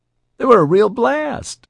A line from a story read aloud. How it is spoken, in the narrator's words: She laughed